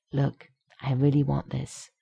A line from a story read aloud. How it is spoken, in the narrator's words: the Canadian mutters